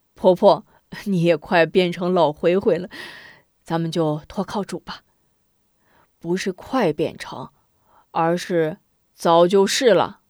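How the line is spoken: Smiling. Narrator (Chinese): 韩平笑一笑

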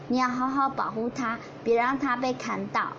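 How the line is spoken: Gentle. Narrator (Chinese): 温柔地说

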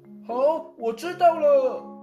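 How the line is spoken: Worried mother's shout. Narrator (Chinese): 妈妈就在一旁担心的喊道

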